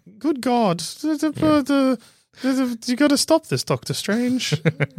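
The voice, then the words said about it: Mumbled, accented character voice. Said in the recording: “She going to mumble like that? ... with the same accent”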